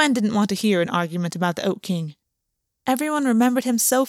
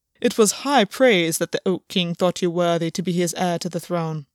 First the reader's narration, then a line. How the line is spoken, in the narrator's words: Albion said, his voice stiff